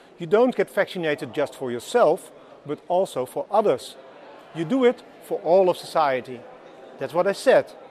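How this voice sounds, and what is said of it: Dutch accent in English. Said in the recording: “I think this guy's Dutch by that accent.”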